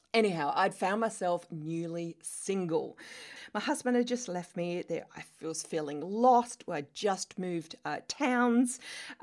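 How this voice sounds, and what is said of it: Australian accent. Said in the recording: “as you can tell from my accent, I am Australian”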